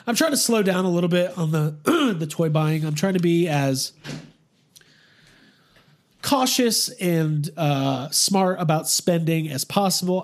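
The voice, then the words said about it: Strained, fading hoarse voice. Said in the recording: “excuse me, I'm losing my voice.”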